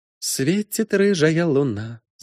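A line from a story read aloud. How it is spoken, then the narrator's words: Humming under breath. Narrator (Russian): замурлыкла под нос Аладка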